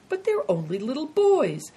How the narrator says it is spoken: said the first soldier gently

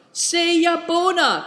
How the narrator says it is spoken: cried Nidong and Mr

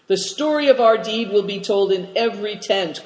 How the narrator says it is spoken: cried Cao Cheng

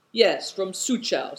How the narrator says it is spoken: said Good Fortune

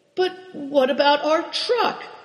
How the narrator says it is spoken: Big Tiger objected timidly

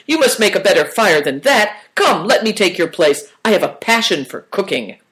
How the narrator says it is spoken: he cried

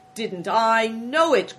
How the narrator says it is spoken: cried the innkeeper, delighted

